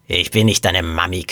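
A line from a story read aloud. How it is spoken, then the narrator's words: Sleepy woman growling. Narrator (German): knurrte die Frau verschlafen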